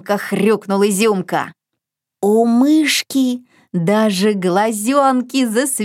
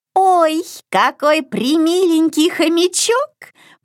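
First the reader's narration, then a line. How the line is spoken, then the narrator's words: Squeaky. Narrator (Russian): пропищала она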